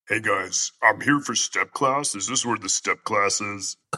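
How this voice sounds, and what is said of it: Low campy Shrike character voice. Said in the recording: “a campy Shrike doing step aerobics class ... He would have a voice like that ... or you could have like a low, very whitish”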